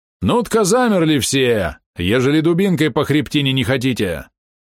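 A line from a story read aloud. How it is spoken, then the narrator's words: Guard roaring. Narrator (Russian): не проорал, а проревел городовой стражник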